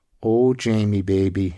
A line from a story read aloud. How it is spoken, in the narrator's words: she sighed, her breath teasing his ear